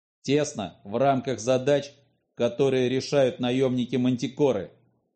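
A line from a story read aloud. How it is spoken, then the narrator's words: Sharp reply. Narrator (Russian): резко ответил Глеб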